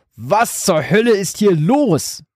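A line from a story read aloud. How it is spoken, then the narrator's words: Father bellowing, panting. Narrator (German): brüllte ihr Vater keuchend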